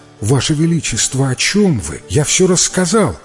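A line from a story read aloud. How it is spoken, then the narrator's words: Heated young man's exclamation. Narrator (Russian): горячо воскликнул юноша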